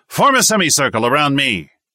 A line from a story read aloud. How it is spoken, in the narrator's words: the instructor shouted